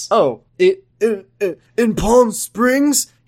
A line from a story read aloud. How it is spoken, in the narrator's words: He asked, stuttering and breathless